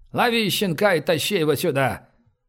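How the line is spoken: Loud pronouncement. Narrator (Russian): громко изрек

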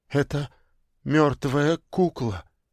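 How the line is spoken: Stammering mutter. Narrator (Russian): заикаясь, пробормотала Инга

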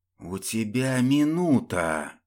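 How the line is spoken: Drawn-out hiss. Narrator (Russian): прошипел Глеб, растягивая слова

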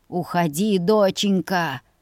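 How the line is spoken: Strained hoarse rasp. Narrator (Russian): хрипел натужно дядя Сет

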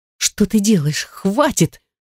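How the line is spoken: Helpless breathless exhale. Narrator (Russian): Беспомощно выдохнула я

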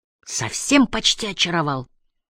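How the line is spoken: Grumbled. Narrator (Russian): буркнула Энджи

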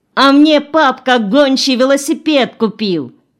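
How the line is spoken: Subdued but fairly loud. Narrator (Russian): Катя притихла, но все-таки сказала достаточно громко

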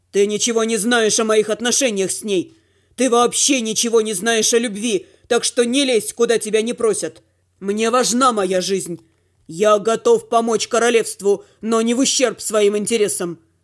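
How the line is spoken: Growl. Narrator (Russian): прорычал Дима

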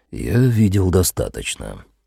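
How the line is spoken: Quiet. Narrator (Russian): тихо проговорил он

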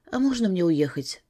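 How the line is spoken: Unnervingly calm question. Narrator (Russian): спросила как-то слишком спокойно

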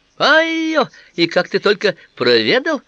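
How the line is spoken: Exclamation. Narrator (Russian): воскликнул

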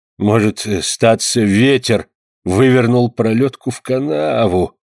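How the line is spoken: Muttered. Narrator (Russian): пробормотал Шанто

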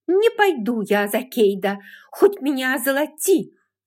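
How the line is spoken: Angry shout. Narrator (Russian): со злостью выкрикнула Скарлетт

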